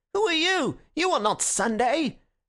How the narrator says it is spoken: one anarchist called out to Gregory

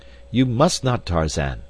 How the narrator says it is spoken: cried D'Arnot

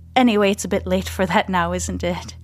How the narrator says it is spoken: He chuckles

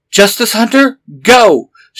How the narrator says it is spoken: She shouted

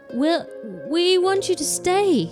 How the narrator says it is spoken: begged Michael

